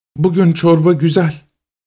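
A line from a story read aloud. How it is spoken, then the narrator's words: Timid voice. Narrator (Turkish): Mürebbiye cesaretsiz bir sesle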